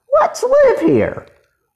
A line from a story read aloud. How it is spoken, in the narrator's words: cried Jesse